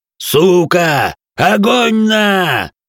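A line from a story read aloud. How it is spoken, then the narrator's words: Yell. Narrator (Russian): Заорал грохот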